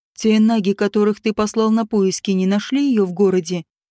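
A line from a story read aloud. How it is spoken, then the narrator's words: Plain. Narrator (Russian): спросил он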